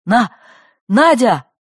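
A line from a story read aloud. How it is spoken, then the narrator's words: Strangled shout. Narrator (Russian): Сдавленно крикнул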